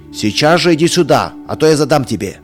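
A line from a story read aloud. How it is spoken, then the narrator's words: Stern angry shout. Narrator (Russian): еще суровее закричал отец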